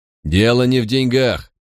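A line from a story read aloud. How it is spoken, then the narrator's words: Stern, arresting tone. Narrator (Russian): проговорил он строгим тоном, заставившим проходивших мимо торговцев остановиться и посмотреть на нас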